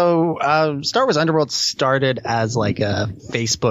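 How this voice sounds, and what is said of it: Usual voice. Nothing is said of it.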